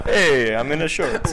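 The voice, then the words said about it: Put-on Italian accent. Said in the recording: “I'm talking like an Italian.”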